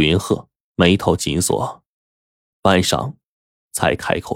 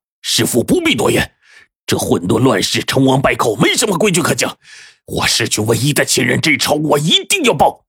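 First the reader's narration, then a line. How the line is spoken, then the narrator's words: Furious lion-like roar. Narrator (Chinese): 阿虎狮子般的怒吼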